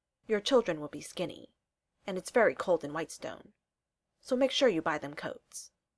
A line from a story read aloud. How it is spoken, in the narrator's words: As gravely as he can, Trinket explains